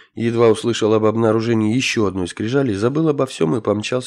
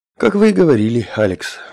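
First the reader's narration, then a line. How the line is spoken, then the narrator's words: Scientist's sigh. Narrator (Russian): вздохнул голос ученого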